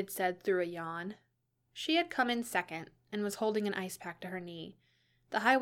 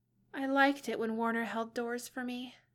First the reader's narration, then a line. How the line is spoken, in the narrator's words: Elle said wistfully